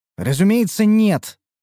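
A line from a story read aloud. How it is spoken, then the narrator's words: Snorting. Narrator (Russian): фыркнула высокая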